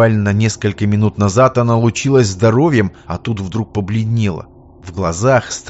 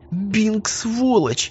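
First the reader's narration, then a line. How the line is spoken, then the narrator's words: Moaned, young woman. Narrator (Russian): буквально простонала девушка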